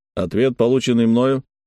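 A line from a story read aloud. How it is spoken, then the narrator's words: Polite metallic voice. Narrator (Russian): проинформировал он затем учтивым металлическим голосом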